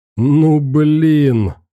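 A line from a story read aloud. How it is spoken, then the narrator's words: Loud laughter. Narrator (Russian): громко смеялся он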